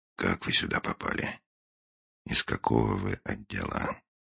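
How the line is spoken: Very quiet question. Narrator (Russian): После паузы, очень тихо, Финч спросил

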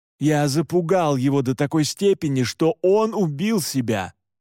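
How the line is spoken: Wailing yell. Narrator (Russian): завопил Александр

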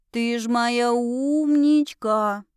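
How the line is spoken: Drawn-out affectionate drawl. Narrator (Russian): протянула я

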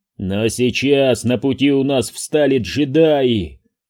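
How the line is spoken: Roaring. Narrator (Russian): проревел Джемба

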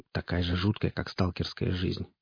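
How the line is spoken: Grumbling. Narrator (Russian): проворчал Олвидар

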